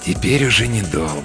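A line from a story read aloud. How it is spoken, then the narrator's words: Quiet. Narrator (Russian): тихо говорит он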